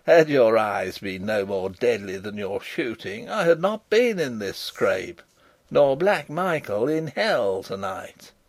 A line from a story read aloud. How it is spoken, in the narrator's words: laughed Rupert